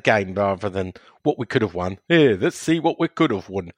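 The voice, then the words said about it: Imitates another person's voice. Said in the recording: “That was my impression”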